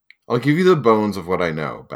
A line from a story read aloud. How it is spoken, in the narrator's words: Bast said